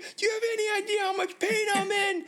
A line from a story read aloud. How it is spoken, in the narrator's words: scream and say